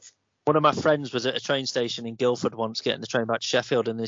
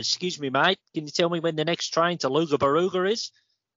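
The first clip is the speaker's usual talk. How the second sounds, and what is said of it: Good put-on Australian accent. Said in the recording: “this Aussie bloke ... That was a really good accent as well.”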